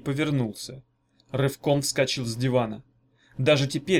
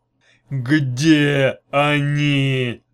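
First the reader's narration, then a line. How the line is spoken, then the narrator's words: Growling chief. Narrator (Russian): прорычал начальник русского отдела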